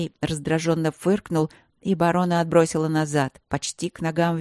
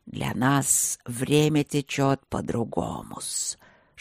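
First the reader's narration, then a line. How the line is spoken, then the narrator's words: Hissing snake. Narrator (Russian): шипел змей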